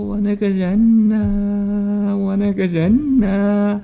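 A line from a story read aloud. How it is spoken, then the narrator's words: Crying. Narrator (Chinese): 就这么哭，一边哭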